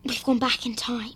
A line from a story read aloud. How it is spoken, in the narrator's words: Hermione whispered